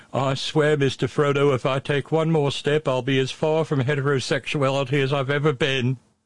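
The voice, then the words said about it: Bad Samwise-style accent. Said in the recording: “you hear the bad accent”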